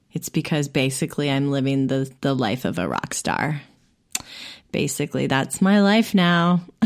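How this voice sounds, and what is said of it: Sick voice with a cold. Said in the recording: “I have got a cold that I can't seem to shake.”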